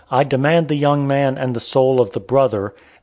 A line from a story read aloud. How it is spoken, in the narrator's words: the old man, groaning deeply and at the same time bursting into tears, said